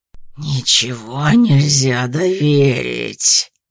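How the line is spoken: Growling. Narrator (Russian): сквозь рычание произнес Вильямс

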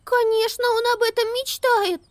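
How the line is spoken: Excited squeak. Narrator (Russian): взволнованно пропищала Амелия

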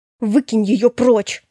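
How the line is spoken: Hissed. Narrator (Russian): прошипела я

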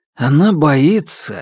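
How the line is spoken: Sighing. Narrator (Russian): вздохнул Александр

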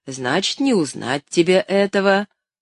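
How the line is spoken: Old man's smiling reply. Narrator (Russian): улыбаясь, ответил старый Том

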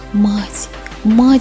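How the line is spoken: Excited whisper. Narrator (Russian): взволнованно зашептал Мишка

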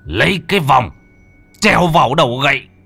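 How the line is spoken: Anguished scream. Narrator (Vietnamese): Ông thầy Khương vẫn hét lên thảm liệt

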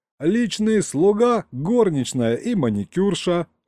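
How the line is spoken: Laughing. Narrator (Russian): хохотнул Саня

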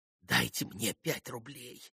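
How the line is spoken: Whispered. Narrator (Russian): прошептал он Мите

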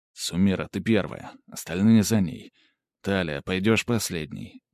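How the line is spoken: Quiet. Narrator (Russian): тихо произнес

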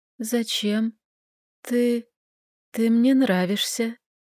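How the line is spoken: Faint whisper, fading. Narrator (Russian): прошептала я, чувствуя, как снова проваливаюсь в темноту

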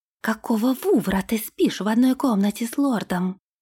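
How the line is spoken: Indignant whisper. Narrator (Russian): возмущенным шепотом спросила она

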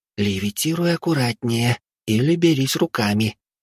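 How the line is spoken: Whisper. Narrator (Russian): шепотом произнесла Вилли

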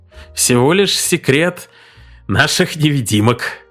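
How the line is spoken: Triumphant giggling reply. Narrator (Russian): торжествующе хихикнув, ответил Арнольд

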